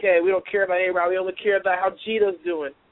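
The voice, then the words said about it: Put-on New York accent. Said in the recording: “Got to throw that New York accent out there.”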